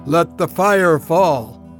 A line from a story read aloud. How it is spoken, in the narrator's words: The voice boomed across the valley